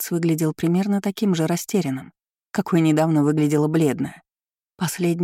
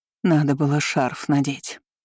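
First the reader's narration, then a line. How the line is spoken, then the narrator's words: Muttering nanny. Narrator (Russian): забормотала няня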